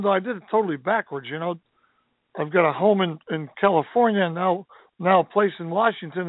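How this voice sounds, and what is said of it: Slightly scratchy voice. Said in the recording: “I got a bit of a cold or head thing or something going on, so my voice is a little scratchy”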